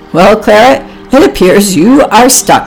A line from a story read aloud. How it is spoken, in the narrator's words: grunted Oliver